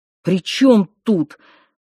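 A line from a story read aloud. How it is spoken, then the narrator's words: Irritated exclamation. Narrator (Russian): раздраженно воскликнул Сташик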